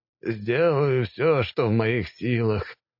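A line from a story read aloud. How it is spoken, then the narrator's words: Resigned sigh. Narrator (Russian): вздохнул порталист, не желая спорить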